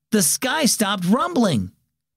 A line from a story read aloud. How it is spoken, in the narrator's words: Aiden exclaimed suddenly